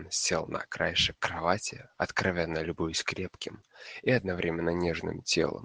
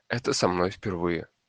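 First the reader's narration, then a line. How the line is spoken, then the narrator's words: Plain. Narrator (Russian): ответил плащ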